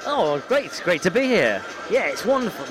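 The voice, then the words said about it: Polished radio presenter voice. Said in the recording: “my radio voice. I'm, I'm classically trained in radio voice”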